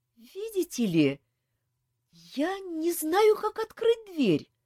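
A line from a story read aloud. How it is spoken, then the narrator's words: Confused reply from room. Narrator (Russian): растерянно отозвались из комнаты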